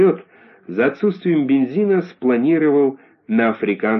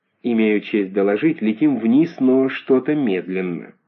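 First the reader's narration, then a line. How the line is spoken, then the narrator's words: Gentle soldier. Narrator (Russian): бравый солдат Швейк ласково сказал ему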